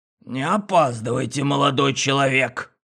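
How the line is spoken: Creaky, preachy old man. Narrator (Russian): Старец проскрипеть это с назиданием

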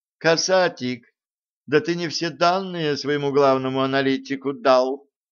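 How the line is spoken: Heavy sigh. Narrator (Russian): тяжко вздохнул

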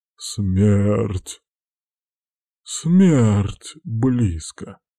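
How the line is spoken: Wheezing like a zombie. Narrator (Russian): хрипел он, как зомби

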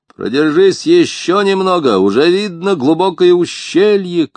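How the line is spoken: Shout. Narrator (Russian): крикнул Керк

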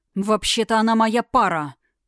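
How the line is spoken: Jealous growl. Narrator (Russian): прорычал он, едва сдерживая рвущуюся на волю ревность

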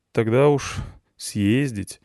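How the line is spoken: Sigh. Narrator (Russian): вздохнул я

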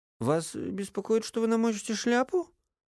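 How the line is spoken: Mocking curt remark. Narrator (Russian): насмешливо бросил Эдельхейд

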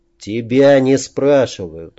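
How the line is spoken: Gloomy. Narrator (Russian): мрачно произнес Бизон

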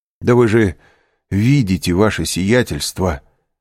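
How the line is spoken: Exclamation. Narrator (Russian): воскликнул управляющий

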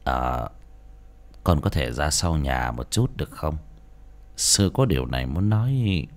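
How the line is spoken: Soft quiet speech. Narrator (Vietnamese): nói khẽ

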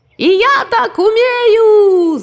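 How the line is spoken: Rooster shouting. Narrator (Russian): закричал петух

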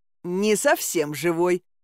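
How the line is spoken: Short laugh. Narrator (Russian): хохотнул Алёшка

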